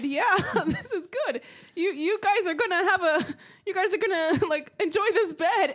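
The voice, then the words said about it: German accent. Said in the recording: “Your German accent was on pristine.”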